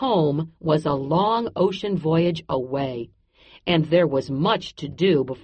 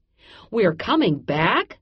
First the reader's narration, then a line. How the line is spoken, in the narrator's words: Manu cried